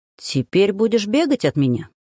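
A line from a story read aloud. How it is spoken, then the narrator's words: Businesslike, while eating. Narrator (Russian): Деловитым тоном произнес Захар, при этом поглощая овощи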